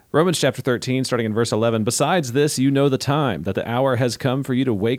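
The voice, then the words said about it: Announcer-style radio voice. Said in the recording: “wonderful radio voice? ... My radio voice.”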